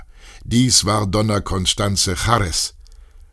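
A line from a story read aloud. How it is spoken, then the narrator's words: Stranger calling out. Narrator (German): rief ein Unbekannter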